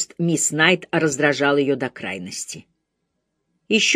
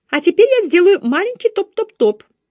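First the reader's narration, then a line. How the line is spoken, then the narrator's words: Cheerful, brisk report. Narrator (Russian): бодрым голосом доложила мисс Найт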